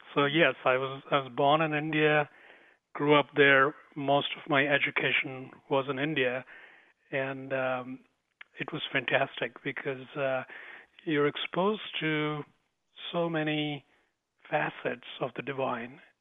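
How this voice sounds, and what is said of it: Slight Indian accent. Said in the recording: “it's in the Indian. You might pick up a little bit of the Indian accent.”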